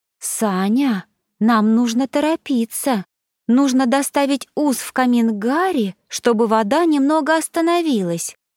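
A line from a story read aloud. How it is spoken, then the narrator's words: Gentle. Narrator (Russian): мягко сказала Бригитта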